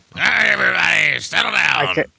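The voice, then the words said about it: Imitates another person's voice. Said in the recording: “Doing my Richard Boone impersonations”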